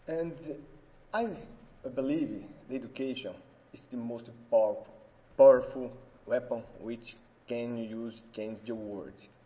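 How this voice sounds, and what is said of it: Brazilian-accented non-native English. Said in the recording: “I'm so sorry with my accent. I'm Italian, but I was born in Brazil. I don't speak very well English”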